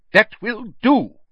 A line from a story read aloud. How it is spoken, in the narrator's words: said sharply